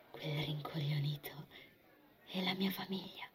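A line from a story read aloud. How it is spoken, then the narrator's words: Sweet unrecognizable whisper. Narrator (Italian): sussurrò in un tono dolce, irriconoscibile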